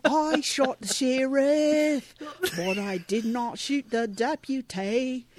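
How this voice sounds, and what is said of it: Singing in a put-on Australian accent. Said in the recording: “can you sing that song with your Australian accent? ... neither of us thinks our accents are good”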